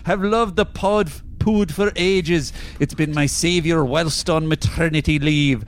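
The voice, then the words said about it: Exaggerated put-on Scottish accent. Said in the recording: “please do so in an absurd Scottish accent ... I can't roll my R, so it's going to be a hindrance in this accent.”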